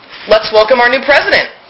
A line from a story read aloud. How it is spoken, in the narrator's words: Bonnie exclaimed